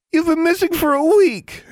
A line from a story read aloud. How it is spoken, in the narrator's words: Anna wailed